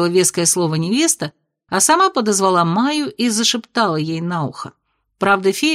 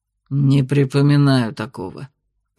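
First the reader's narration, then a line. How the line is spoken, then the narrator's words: Grumbling dragon. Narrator (Russian): пробурчал в ответ дракон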